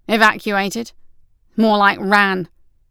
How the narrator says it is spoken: Crawley snapped

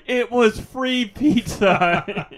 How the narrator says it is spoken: he's tied up and he's just yelling

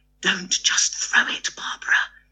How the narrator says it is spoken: Chrissy whispering in her ear

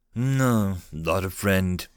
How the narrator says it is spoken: Mills said in a serious voice

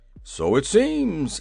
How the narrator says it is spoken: answered the little monarch cheerfully

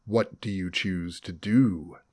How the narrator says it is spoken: the maze controller asked, his voice coming disembodied from the shadows of the black room

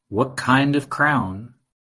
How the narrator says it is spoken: she asked

